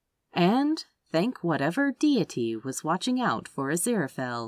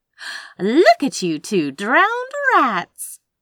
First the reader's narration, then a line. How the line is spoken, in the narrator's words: she said cheerfully